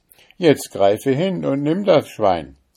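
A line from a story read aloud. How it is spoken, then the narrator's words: Judge calling out. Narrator (German): rief der Richter dem Teufel zu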